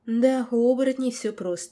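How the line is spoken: Sad, heavy sigh. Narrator (Russian): тяжело вздохнула и грустно сказала

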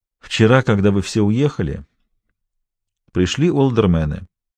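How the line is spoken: Even voice. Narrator (Russian): ровным голосом отвечал Костельно

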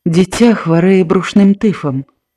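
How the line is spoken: Calm speech. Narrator (Belarusian): Таццяна спакойна сказала

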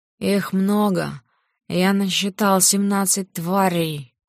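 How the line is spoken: Quiet growl. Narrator (Russian): Тихонько рыкнув, он выговорил

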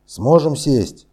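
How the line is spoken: Shouting. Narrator (Russian): крикнул Кэп

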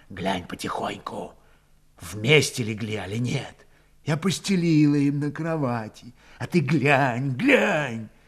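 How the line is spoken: Night whisper. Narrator (Russian): Ночью Пантелей Прокофьич шептал

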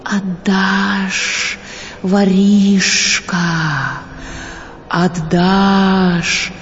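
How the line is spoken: Whispering trees. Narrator (Russian): шептали деревья

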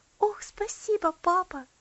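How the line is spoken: Joyful reply. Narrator (Russian): радостно ответила Элси

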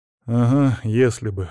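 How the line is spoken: Sighed. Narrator (Russian): вздохнул

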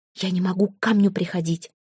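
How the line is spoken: Hurried whisper. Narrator (Russian): торопливо шепнула Яра Кориславе

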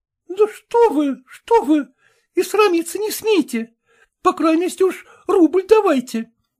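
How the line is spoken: Exclamation. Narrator (Russian): воскликнула кухарка

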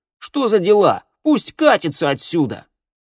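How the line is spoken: Angry shout. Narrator (Russian): Гелу на него крикнул

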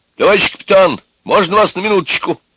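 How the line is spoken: Loud shout. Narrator (Russian): громко крикнул

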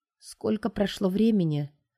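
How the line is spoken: Hoarse, barely alive voice. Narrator (Russian): охрипшим еле живым голосом бросаю я

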